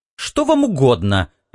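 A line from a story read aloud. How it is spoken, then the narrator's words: Sharp question. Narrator (Russian): резко спросила миссис ТТТ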